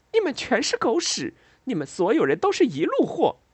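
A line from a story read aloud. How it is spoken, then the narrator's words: Sudden laughter. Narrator (Chinese): 忽然笑了起来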